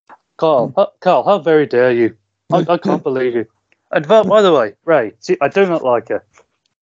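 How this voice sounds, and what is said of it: Poor Birmingham accent impression. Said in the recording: “one of the worst impressions I've heard in my life ... a good Birmingham accent, but trying to get Reese's inflection down is a bit harder”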